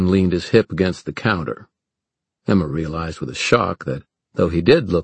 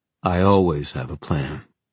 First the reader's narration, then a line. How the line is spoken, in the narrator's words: said Julian calmly